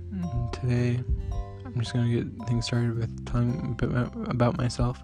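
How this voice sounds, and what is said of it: Slow, quiet, soft-spoken voice. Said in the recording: “my voice is slow, I just don't like speaking that loud”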